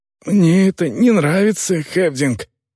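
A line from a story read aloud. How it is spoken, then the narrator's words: Hoarse rasp. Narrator (Russian): прохрипел он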